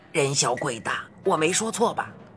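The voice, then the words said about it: Speaking quietly, low voice. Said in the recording (Chinese): “小声”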